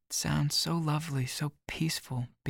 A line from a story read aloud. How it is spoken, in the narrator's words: Bean says dreamily